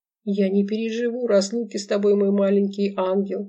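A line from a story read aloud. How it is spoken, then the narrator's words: Reading between sobs. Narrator (Russian): прочитала в перерывах между рыданиями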